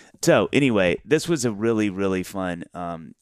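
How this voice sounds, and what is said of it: Usual voice. Nothing is said of it.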